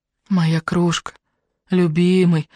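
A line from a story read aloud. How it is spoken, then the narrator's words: Tender whisper. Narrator (Russian): ласково шептала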